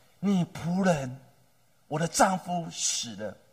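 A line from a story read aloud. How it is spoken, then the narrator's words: Pleading. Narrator (Chinese): 一个先知门徒的妻哀求伊丽莎说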